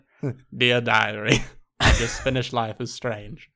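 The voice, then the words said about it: Odd put-on accent. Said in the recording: “I've taken on an odd accent today.”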